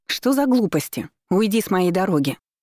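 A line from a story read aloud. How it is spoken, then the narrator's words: Indignant. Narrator (Russian): возмущенно заявила она Артемису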